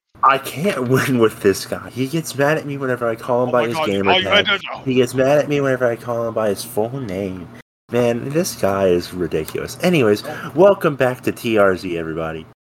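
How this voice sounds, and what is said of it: Imitates another person's voice. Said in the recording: “doing a Bob Ross impression”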